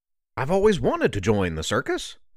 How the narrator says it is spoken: Turk exclaimed

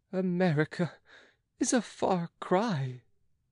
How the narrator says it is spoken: moaned Pitou

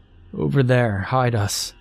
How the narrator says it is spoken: he said weakly

